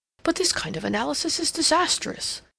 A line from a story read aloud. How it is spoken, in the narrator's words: he exclaimed